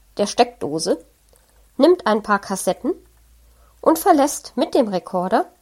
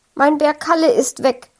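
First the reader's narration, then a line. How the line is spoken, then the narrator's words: Sudden shout. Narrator (German): schreit Frank auf einmal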